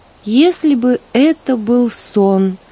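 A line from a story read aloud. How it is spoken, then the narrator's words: Sad sigh. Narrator (Russian): печально вздохнула Злата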